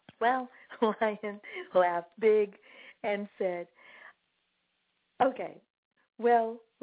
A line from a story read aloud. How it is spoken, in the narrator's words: laughed the big lion